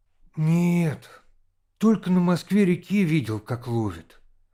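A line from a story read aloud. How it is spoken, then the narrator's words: Dejected, timid confession. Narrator (Russian): упавшим голосом сознался Володя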